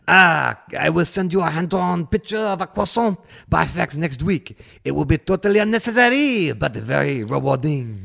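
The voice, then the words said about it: Put-on French accent. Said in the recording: “I love doing my French accent.”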